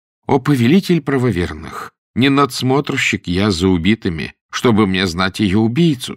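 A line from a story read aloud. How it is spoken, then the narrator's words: Plain. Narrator (Russian): сказал Джафар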